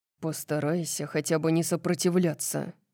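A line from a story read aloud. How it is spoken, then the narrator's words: Irritated mutter. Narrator (Russian): пробормотал он, похоже, раздраженный тем фактом, что я не смогла этого сделать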